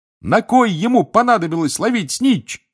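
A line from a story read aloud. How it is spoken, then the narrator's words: Excited shouting. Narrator (Russian): кричал Рон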